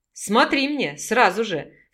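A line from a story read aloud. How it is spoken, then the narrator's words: Man's smiling menace. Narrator (Russian): с улыбкой грозно сказал мужчина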